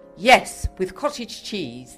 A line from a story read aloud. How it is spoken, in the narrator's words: Maud said firmly